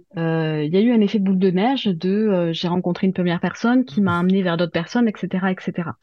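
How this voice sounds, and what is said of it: Toulouse regional French accent. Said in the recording (French): “je viens de Toulouse, donc de province. Hein, vous l'aurez entendu à mon accent”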